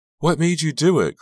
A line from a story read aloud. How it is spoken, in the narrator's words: cried a reporter